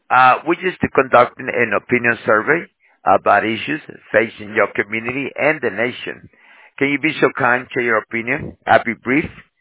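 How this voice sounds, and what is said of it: Very thick foreign accent. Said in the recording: “You have a very thick accent. You're very hard to understand”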